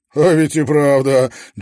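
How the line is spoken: Chuckling. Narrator (Russian): Джо Краус хохотнул

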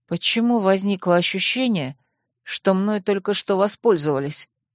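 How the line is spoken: Mumble. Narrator (Russian): пробормотала я

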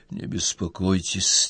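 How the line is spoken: Quiet. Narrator (Russian): тихо сказал

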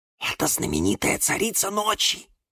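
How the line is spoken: Whisper. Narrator (Russian): шепнул Кириллу Юра

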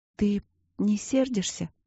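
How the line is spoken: Quiet, plaintive question. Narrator (Russian): спросила она тихо и жалобно

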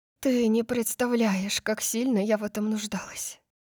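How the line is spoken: Murmured between kisses. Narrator (Russian): пробормотала я, снова целуя его

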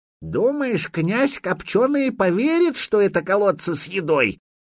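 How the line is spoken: Creaky old man's voice. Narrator (Russian): проскрипел какой-то незнакомый Духареву дедок

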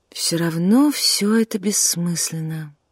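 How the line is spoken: Dejected. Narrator (Russian): уныло сказала она

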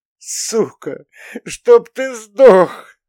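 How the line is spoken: Sobbing after shock. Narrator (Russian): рыдала, когда это состояние остолбенения с нее спало

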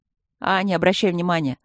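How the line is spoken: Loud deep voice. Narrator (Russian): громко пробасил

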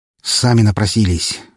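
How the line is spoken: Sighing. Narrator (Russian): вздохнул

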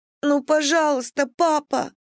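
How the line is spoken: Sobbing, pleading. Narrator (Russian): рыдала она

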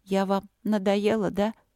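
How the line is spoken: Sad. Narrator (Russian): грустно сказала Алина

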